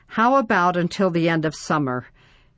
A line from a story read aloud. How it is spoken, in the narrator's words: Ben groaned